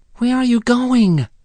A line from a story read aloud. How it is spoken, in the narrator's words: cried Wee Willie Winky